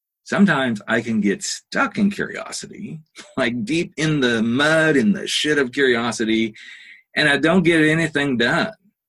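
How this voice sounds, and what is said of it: Slight Southern drawl. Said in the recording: “my little southern drawl just kind of popped up in there”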